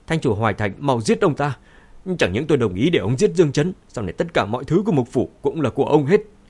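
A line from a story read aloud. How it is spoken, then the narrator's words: Urgent shout. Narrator (Vietnamese): Khương Nham hét lên với Thành chủ Hoài Thành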